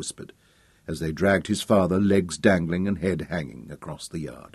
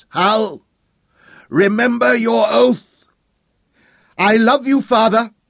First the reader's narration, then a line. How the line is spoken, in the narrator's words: Hal shouted back, choking on the words with sorrow